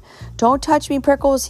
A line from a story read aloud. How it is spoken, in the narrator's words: he yelled